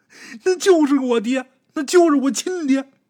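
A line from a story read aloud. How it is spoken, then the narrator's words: Tearful cry. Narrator (Chinese): 小赖子带着哭腔喊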